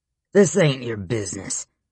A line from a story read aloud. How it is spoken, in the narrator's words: the leader snarled